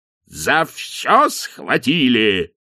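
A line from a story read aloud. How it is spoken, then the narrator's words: Roar. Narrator (Russian): взревел арк-канцлер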